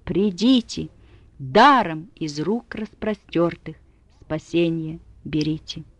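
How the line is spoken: Loud call over storm. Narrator (Russian): Громко из бури и ветра зовет он

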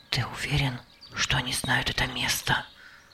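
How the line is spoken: Whispered. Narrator (Russian): Янянь прошептал

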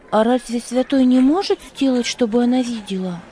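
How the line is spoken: Quick question. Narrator (Russian): она быстро спросила

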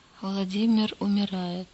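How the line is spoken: Quiet. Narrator (Russian): тихо промолвил он

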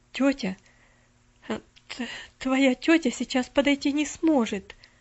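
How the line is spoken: Stammering. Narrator (Russian): запинаясь, ответила она

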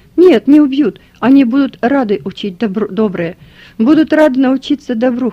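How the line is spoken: Calm. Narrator (Russian): все так же спокойно сказал

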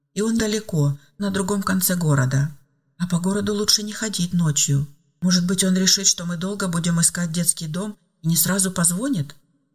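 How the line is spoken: Hopeful girl's whisper. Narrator (Russian): С надеждой прошептала девочка

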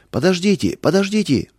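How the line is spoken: Shouting. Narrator (Russian): закричал он

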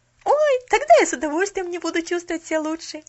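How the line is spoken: Exclamation. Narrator (Russian): воскликнула Поллианна

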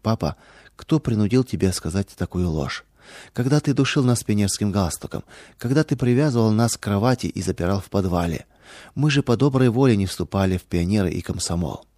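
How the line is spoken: Daughters' sad question. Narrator (Russian): дочери печально спросили

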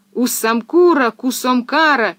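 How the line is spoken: Crowd shouting. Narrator (Russian): кричали веселяне

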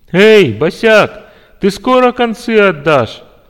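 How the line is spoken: Laughing. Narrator (Russian): захохотал

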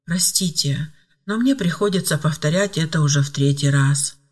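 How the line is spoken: Dejected voice. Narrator (Russian): подавленным голосом произнесла Ева

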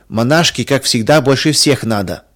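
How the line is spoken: Snide giggling. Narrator (Russian): ехидно посмеивались девочки

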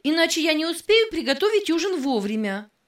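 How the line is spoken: Sharp, impatient voice. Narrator (Russian): Голос ее звучал резко и нетерпеливо

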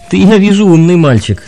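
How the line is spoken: Laughing young man. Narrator (Russian): засмеялся молодой человек

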